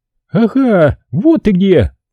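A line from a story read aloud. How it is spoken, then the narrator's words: Yell. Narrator (Russian): завопила Ясмин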